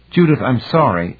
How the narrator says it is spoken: Anne said hastily

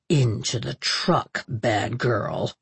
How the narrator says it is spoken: said in a low growl

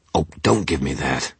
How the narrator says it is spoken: I snapped

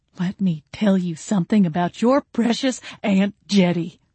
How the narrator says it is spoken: Grandma spat

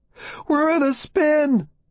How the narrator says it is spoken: Lewis screams

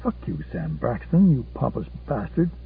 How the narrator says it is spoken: Susanna covered the mouthpiece and murmured

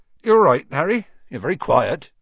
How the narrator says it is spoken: said Hagrid

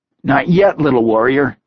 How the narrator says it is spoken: Dagger said with an amused chuckle

